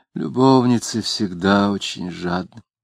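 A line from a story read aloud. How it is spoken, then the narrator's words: Sighing. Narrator (Russian): вздохнув, сказала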